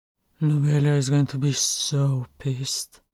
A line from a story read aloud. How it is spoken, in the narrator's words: Buffer said gloomily